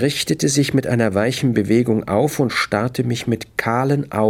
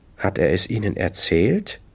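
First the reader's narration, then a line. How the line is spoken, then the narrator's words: Woman asking calmly. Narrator (German): fragte sie ruhig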